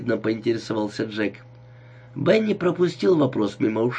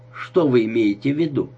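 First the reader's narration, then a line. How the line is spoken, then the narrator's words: Dry question. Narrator (Russian): сухо спросил он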